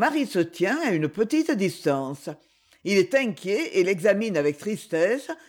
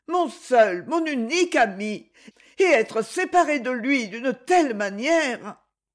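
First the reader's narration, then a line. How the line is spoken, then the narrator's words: Exclaiming. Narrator (French): s'écrie-t-elle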